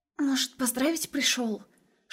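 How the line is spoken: Girls whispering. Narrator (Russian): шепотом говорили девочки

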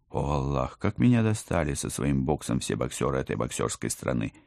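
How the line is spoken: Groan. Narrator (Russian): Простонала я

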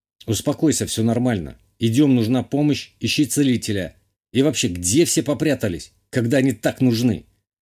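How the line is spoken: Loud. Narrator (Russian): Говорю громко

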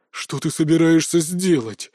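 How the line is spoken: Growling. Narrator (Russian): зарычал Толик

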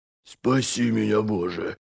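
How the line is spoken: Frightened breathless gasp. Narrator (Russian): выдохнул он, когда клинок Скифер шмыгнул мимо его ребер с одной стороны, потом с другой, прорезая дыру в его рубахе

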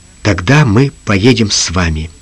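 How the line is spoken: Quiet. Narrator (Russian): тихо ответил

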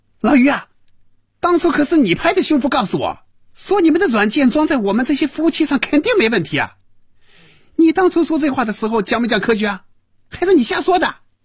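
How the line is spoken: Furious shouting. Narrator (Chinese): 赵平凡被余威彻底激怒了，真要骂人了，大声嚷着

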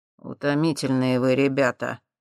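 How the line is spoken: Gruff mutter. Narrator (Russian): буркнул Юрий

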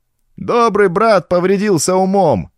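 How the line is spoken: Shouting. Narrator (Russian): кричал кто-то

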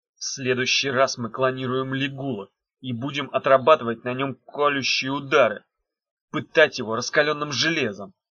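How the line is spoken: Through gritted teeth. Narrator (Russian): сквозь зубы произнес Меф

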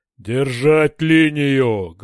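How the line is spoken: Deafening bark over helmets. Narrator (Russian): гаркнул в шлемах оглушительный голос Дора

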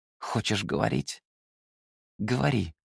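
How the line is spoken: Through gritted teeth. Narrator (Russian): произнес сквозь зубы

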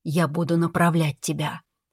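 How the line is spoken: Whisper in ear. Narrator (Russian): шепнул над ухом

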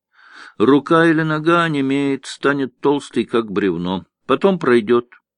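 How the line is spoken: Kind voice. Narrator (Russian): добрым голосом сообщила Джумагуль

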